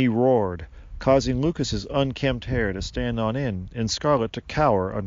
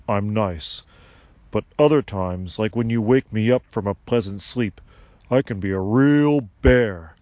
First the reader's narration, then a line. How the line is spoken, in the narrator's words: Sylvanus barked